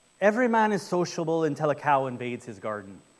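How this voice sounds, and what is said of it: Put-on Irish accent. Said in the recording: “An Irish proverb, which I got to do my, because I love just the Irish accent, it's fun”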